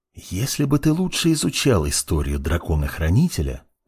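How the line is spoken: Whispered. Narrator (Russian): прошептал Мурана

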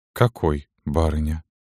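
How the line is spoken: Muffled, hollow. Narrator (Russian): глухо произнесла Галина

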